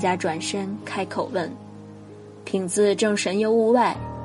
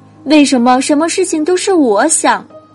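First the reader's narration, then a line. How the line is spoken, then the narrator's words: Angry and loud. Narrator (Chinese): 佳佳又生气了，大声说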